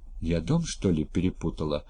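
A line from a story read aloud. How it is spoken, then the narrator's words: Muttered. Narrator (Russian): пробормотала она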